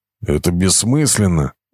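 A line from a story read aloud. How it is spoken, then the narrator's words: Grumbling. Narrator (Russian): ворчал Эстебан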